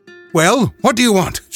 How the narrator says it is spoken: she asked sharply

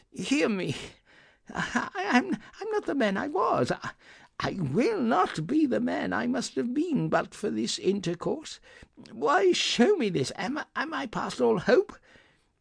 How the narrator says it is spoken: he cried

